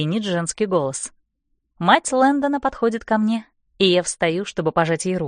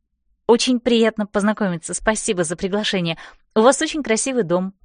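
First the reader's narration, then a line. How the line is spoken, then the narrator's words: Rapid chatter. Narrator (Russian): тараторю я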